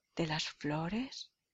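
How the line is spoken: Echoing murmur. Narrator (Spanish): murmuró una voz como un eco de sus palabras

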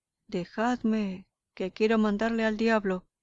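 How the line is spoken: Terrible shout. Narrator (Spanish): gritaba con voz terrible

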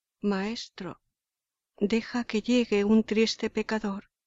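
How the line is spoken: Imploring. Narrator (Spanish): implorando

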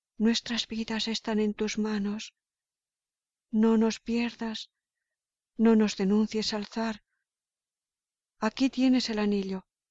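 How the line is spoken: Pleading. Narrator (Spanish): suplicándole

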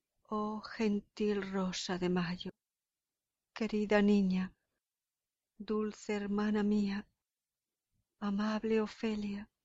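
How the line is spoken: Tender compassionate murmur. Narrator (Spanish): murmuró lleno de tierna compasión

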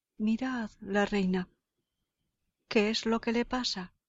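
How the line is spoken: Alarmed exclamation. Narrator (Spanish): exclama, viéndola caer de espalda y sin sentido

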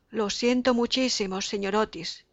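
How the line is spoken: Young man's broken voice. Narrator (Spanish): le dijo el joven con voz entrecortada

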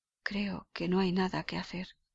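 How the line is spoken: Murmured. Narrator (Spanish): murmuró

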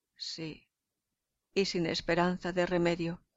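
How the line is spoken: Sad reply. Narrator (Spanish): responde tristemente Casio

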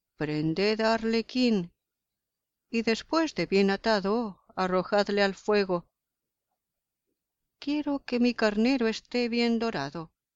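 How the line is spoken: Imperious command. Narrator (Spanish): Tragalumbre les dijo con voz imperiosa

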